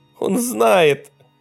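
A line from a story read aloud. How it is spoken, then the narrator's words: Tearful answer. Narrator (Russian): сквозь слезы ответил Эвальд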